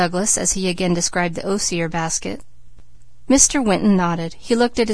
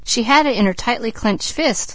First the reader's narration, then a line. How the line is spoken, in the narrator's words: laughed Douglas